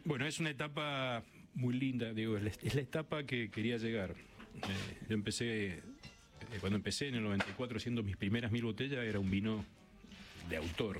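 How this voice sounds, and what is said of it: Deep, polished radio-announcer voice. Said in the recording (Spanish): “Tiene voz de locutor.”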